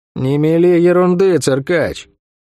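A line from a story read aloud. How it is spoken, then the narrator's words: Gloomy reply. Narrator (Russian): мрачно ответила Сойка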